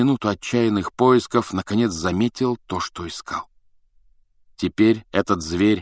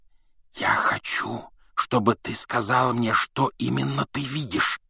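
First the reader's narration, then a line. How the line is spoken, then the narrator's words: Whisper. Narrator (Russian): прошептал Гарри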